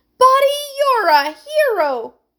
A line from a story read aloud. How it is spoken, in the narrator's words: cried Heidi